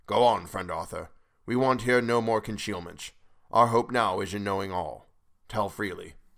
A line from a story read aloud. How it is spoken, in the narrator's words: Van Helsing said gravely